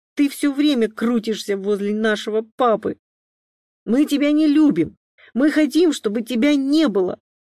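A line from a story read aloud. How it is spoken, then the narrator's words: Shouted in chorus. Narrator (Russian): Уже хором закричали близнецы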